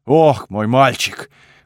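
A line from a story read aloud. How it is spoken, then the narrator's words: Deep bass voice. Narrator (Russian): пробасил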